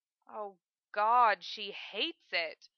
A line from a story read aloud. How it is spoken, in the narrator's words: Johnny moans